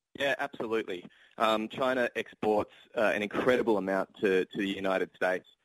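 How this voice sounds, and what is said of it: Australian accent. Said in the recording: “I'm Australian, for example, if you can tell by my accent.”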